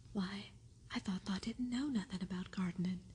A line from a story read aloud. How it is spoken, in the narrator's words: he exclaimed